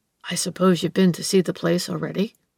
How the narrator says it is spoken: the old man asked in a confidential tone

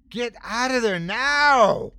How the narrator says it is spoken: I scream

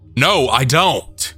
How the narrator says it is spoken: I yelled, this time hoping to get the attention of one of the other guys in the apartment

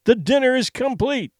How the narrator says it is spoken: he cried

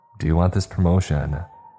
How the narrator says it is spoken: Jennifer sighs

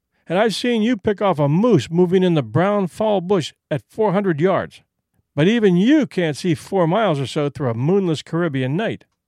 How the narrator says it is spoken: said Whitney with a laugh

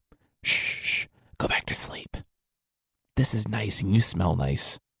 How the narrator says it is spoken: He just whispered in her ear

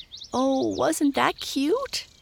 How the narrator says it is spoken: cried Mabel

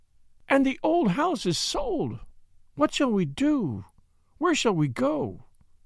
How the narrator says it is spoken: she cried, lost and helpless

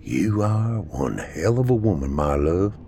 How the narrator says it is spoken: whispered

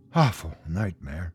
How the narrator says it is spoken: he mumbled

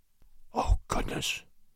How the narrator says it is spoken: someone whispered in Crosby's ear

